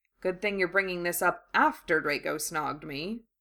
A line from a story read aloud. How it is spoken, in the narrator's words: he muttered